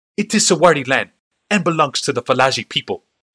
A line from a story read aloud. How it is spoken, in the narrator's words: snapped the Kadir